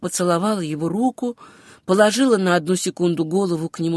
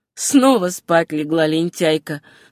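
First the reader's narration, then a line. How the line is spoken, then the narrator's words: Laughing exclamation. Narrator (Russian): смеясь воскликнул он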